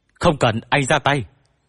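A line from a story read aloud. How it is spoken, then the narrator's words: Shouted. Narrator (Vietnamese): Hách Chí Nghĩa hét lên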